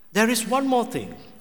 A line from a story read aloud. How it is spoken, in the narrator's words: said excitedly